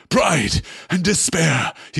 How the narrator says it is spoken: he cried

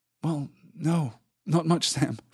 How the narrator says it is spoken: Frodo sighed

